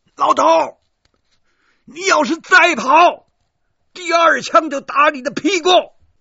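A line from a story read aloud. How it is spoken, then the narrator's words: Shouting. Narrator (Chinese): 我对他大喊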